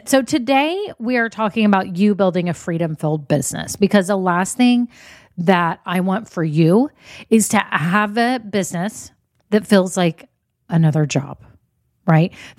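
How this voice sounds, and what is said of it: Scratchy voice. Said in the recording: “my voice sounds scratchy ... I just sound a little bit weird”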